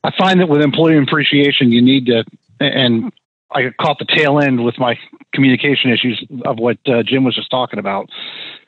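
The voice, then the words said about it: Northeastern US accent, not Southern. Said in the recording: “you don't have like a Tennessee accent ... I don't think you have an Atlanta accent either ... You don't sound very South at all, man. ... I think it's probably Connecticut, Jersey accent”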